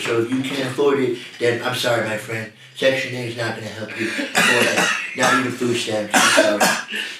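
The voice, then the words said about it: Donald Trump impersonation. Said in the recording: “impersonation of Donald Trump ... that was fire”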